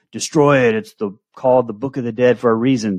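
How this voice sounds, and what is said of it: Bruce Campbell impression. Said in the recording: “my Bruce Campbell impression”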